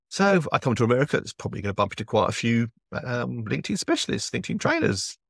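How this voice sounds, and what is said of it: English accent. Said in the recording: “you do really like the English voice. My accent apparently is a major plus point ... the best voice you're going to hear today”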